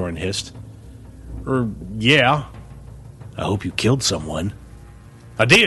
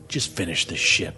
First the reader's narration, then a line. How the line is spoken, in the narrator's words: he growled